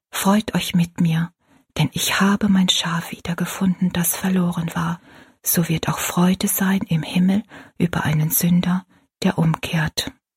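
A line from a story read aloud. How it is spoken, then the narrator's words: Whisper. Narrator (German): mit flüsternder Stimme sagte Rosalie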